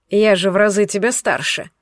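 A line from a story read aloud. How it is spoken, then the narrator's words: Scoffing snort. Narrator (Russian): хмыкнул дракон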